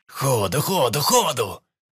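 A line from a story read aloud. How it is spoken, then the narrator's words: Yell. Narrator (Russian): заорал Перепел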